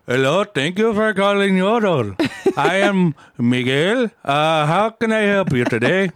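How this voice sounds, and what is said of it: Put-on Spanish, Indian or Middle Eastern accent. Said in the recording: “Like some Spanish, Indian, Middle Eastern fella. ... I'm not very good at accents. ... That was good.”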